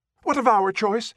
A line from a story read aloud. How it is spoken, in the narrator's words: cried Umber, the third sister